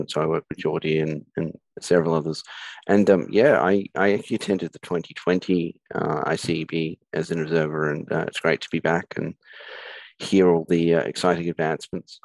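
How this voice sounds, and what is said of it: Australian accent. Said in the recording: “I'm from Australia. You can probably tell from my accent.”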